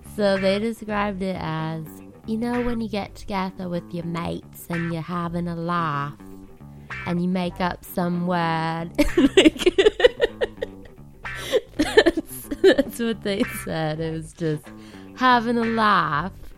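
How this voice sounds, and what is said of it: Flawless put-on British accent. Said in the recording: “Your British accent is flawless. Flawless.”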